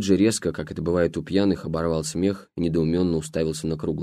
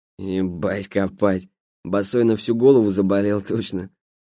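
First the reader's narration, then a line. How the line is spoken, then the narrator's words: Laughing. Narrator (Russian): Батон рассмеялся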